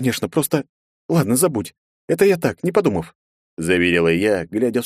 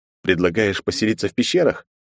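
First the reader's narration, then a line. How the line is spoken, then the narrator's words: Sarcastic snort. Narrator (Russian): хмыкнул Андрей с явным сарказмом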